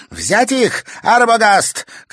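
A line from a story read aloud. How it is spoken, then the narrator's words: Shout from behind. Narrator (Russian): крикнула сзади Саяна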